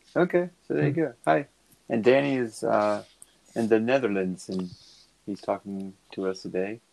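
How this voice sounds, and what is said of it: Slightly Dutch accent. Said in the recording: “You said that in a slightly Dutch accent”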